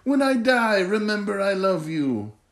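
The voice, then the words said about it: Splinter voice with put-on Asian accent. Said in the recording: “I apologize if that accent is offensive to anyone”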